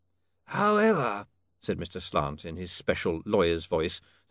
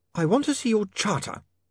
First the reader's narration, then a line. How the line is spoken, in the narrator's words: Saccharissa snapped